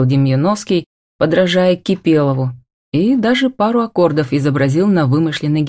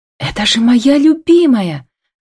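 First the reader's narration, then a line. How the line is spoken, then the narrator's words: Joyful cry. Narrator (Russian): радостно вскрикнула Камила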